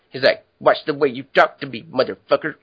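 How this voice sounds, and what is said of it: Imitates a redneck movie character. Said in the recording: “Him and that, like, redneck guy with the blind eye... that impersonation”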